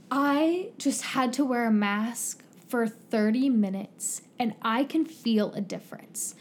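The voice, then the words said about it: Whiny complaining voice. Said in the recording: “She's like whining”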